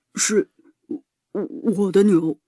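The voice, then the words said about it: Quiet, hesitant reply. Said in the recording (Chinese): “小声的回答”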